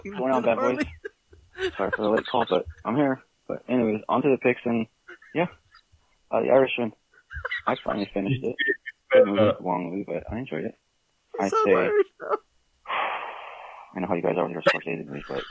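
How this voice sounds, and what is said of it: Thick Irish accent. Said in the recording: “now he sounds Irish. Give him an accent point ... His Irish accent is too thick.”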